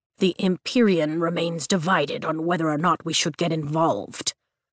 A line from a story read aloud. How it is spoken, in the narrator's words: Tairn grumbles